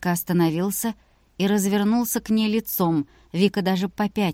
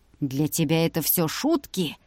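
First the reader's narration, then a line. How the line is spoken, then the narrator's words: Menacing hiss. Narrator (Russian): Прошипел он таким тоном, что ей захотелось убежать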